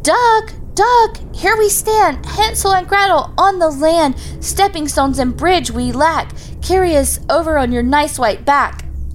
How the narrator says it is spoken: she cried

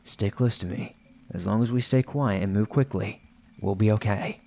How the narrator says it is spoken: said quietly to me

